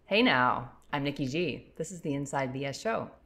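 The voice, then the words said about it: Polished radio announcer voice. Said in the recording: “I love your radio voice. It is fantastic.”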